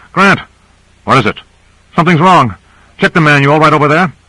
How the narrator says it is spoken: He called out

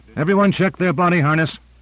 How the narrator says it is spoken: Owens called out

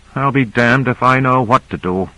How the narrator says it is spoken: he muttered

